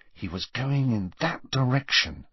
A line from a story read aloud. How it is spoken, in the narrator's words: murmured Harry as quietly as possible